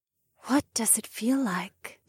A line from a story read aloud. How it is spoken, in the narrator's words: Acrasis whispered